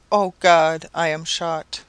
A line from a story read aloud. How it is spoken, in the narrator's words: exclaiming